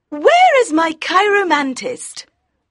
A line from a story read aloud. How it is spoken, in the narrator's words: in her high voice asked